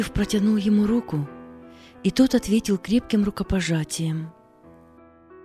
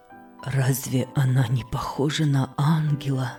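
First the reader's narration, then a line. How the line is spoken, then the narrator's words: Whispering. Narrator (Russian): шептал он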